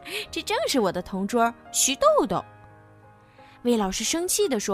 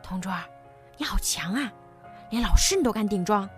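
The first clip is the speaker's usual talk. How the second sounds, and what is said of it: Quiet whispered praise. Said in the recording (Chinese): “小声夸奖”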